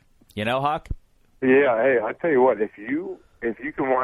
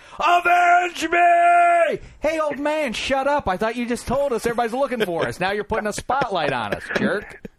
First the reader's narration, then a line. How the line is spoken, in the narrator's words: all of a sudden he starts yelling